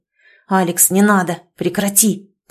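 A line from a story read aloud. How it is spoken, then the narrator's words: Hoarse wheeze. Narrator (Russian): прохрипел он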